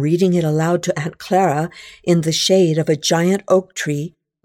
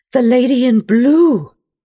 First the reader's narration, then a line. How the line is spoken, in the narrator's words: I gasp